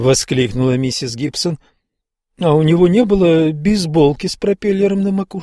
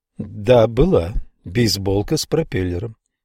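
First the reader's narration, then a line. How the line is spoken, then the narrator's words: Even-voiced reply. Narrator (Russian): ответил ровным голосом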